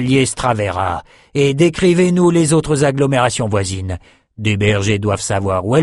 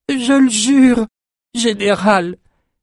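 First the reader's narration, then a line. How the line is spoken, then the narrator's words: Exclaimed. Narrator (French): s'écria Irma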